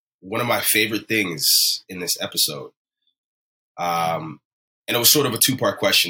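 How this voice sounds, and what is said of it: Unusually deep, bassy voice. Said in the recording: “I had a late night. ... This bass in my voice is not natural. ... The bass in your voice is one of my favorite things about you.”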